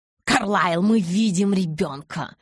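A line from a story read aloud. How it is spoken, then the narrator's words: Barked. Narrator (Russian): рявкнул Кай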